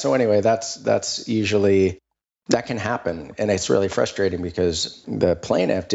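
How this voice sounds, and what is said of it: Usual voice. Nothing is said of it.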